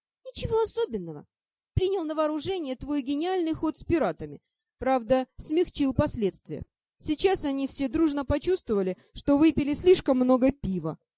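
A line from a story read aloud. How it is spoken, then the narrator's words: Snorting spiteful elf. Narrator (Russian): хмыкнул вредный эльф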